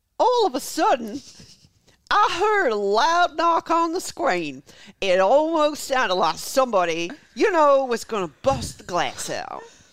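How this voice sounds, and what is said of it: Put-on Carolina accent. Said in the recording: “the Carolina accent”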